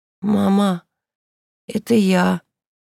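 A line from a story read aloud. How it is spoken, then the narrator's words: Hoarse voice. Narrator (Russian): ответила Инка хриплым голосом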